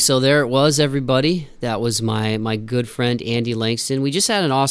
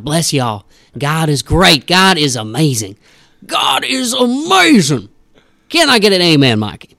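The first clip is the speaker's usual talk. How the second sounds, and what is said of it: Southern Sunday preacher voice. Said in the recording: “this like Southern Sunday morning preacher voice”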